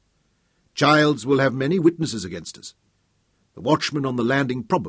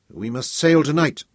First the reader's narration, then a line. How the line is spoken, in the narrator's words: Tom said firmly